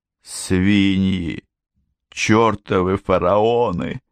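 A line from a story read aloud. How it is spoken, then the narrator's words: Muttered under breath. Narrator (Russian): забормотал он себе под нос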